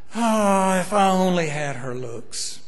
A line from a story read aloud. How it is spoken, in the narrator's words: a 38-year-old scrub woman would sigh